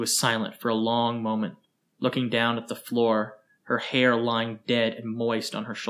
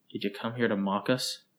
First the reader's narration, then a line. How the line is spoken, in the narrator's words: Her voice was quiet, and the edge was stronger